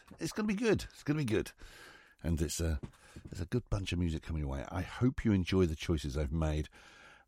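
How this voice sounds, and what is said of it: Unwell-sounding voice, not quite right. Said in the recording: “Excuse my voice. I'm getting over the man flu. And still, I don't sound right.”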